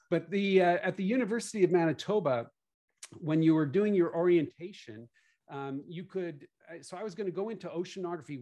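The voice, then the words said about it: Mixed Canadian and Southern US accent. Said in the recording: “I'm Canadian, so if you hear funny accent, it's a combination of where I live now in Nashville plus Canada plus living on the West Coast for a while. So it's howdy y'all, something like that.”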